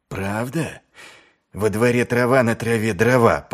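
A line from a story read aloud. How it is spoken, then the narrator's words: Growled. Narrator (Russian): прорычал он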